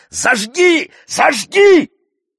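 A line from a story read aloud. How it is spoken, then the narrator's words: Terrible shout. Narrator (Russian): Кто-то из темноты кричит страшным голосом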